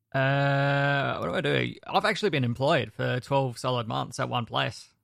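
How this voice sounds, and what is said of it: South Australian accent. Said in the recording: “I am in South Australia. You can tell by my voice being different to everyone else”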